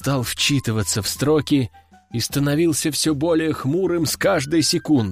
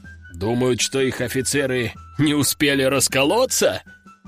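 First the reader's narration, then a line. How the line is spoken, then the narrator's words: Chuckling. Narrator (Russian): хохотнул Лежаков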